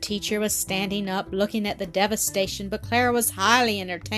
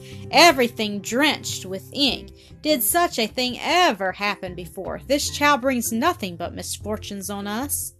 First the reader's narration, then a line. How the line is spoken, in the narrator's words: Miss Rottenmeier exclaimed